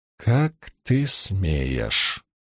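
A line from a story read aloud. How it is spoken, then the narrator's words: Hissed through teeth. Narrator (Russian): процедила Илайн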